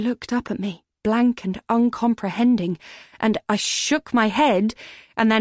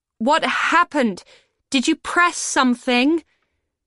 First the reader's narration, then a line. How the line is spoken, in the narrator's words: I shouted